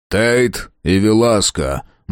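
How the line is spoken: Gloomy. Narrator (Russian): мрачно кивнул Фрейзер

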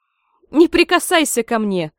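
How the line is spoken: Mother shouting. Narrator (Russian): кричала ее мать

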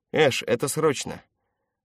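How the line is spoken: Curt, alarmed voice. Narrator (Russian): Она говорила отрывисто, в голосе звучала тревога

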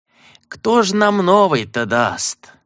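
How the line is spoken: Feigned sigh. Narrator (Russian): притворно вздохнул лепрекон

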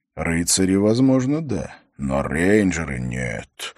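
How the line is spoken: Inaudible mumble with exhale. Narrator (Russian): пробурчал Холт, одновременно шумно выдохнув, поэтому Хорос не мог расслышать слов учителя

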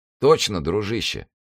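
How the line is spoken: Plain. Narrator (Russian): сказал дядек

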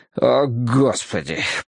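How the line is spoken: Groaned. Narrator (Russian): простонал я

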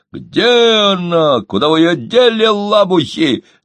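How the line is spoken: Shouting. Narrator (Russian): закричал он

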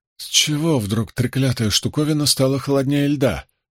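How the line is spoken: Muttered. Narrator (Russian): пробормотал он

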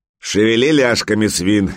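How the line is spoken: Barking shout. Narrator (Russian): гаркнул берсерк

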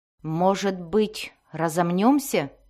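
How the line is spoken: Plain. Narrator (Russian): спросил Зак

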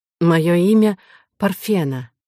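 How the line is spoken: Slightly hoarse voice. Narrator (Russian): ответила та хрипловатым голосом

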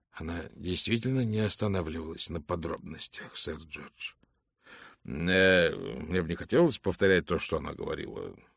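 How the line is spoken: Embarrassed mutter. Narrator (Russian): смущенно пробормотал сэр Джордж

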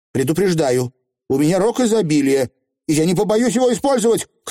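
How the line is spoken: Shouting. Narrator (Russian): крикнула Тиффани

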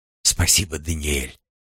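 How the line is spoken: Whisper. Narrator (Russian): шепнула

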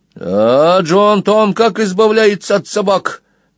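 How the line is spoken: Loud inquiry. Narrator (Russian): громко осведомился Сквил

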